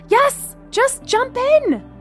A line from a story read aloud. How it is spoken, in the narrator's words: Gemma shouted back